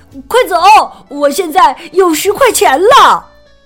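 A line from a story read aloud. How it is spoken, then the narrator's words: Excited shout. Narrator (Chinese): 富兰克林激动的大喊起来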